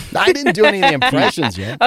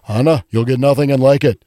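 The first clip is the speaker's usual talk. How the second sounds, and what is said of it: Imitates a movie character's voice. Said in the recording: “A couple of Judge Smales ... that impression”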